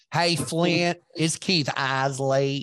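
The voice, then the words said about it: Imitated North Carolina accent. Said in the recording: “That North Carolina accent is so hard.”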